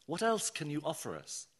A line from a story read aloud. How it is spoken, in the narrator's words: I asked